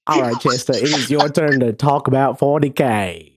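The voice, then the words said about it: Forrest Gump-like imitation of another person. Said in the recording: “he doesn't sound like his usual self today ... my best Blake impersonation ... Forrest Gump. Blake is now Forrest Gump.”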